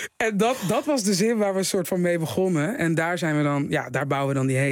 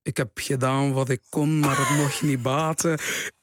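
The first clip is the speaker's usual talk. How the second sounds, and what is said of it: Imperfect put-on West Flemish accent. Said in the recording (Dutch): “Maar het is niet een goed West-Vlaams accent, hè?”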